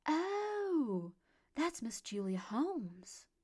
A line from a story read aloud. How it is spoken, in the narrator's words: exclaimed, growing wide-eyed at the surprise of someone not recognizing a local celebrity